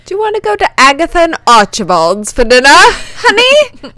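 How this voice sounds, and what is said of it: Badly done put-on accent. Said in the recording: “What was that accent? That was an awful accent.”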